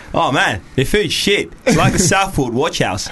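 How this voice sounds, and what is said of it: Put-on Australian accent. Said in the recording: “How was that for an Australian accent, by the way? ... That was good. ... I thought it was good. ... That was pretty bad”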